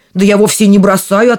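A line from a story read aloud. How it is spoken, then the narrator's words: Giant answering. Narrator (Russian): отвечал первый великан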